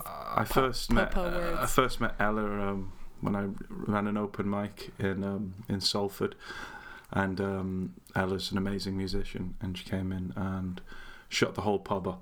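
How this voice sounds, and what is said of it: Mancunian accent. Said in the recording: “the Mancunian accent”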